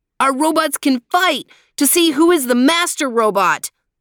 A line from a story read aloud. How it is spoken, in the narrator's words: Desmond yelled again